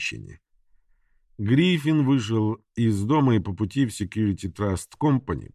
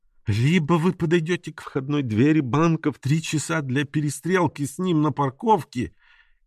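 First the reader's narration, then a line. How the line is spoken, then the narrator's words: Tearful shout. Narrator (Russian): кричала женщина сквозь слезы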